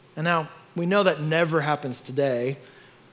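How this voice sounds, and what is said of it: Sarcastic tone. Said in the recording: “That was sarcasm,”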